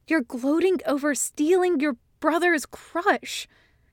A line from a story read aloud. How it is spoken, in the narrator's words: he hisses in a whisper that carries remarkably well